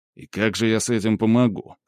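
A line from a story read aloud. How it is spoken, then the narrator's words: Smirking snort. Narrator (Russian): хмыкнул Скип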